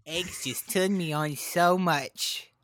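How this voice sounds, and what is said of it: Imitates another person's voice. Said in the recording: “Is that your Belle Delphine impression? ... Yes.”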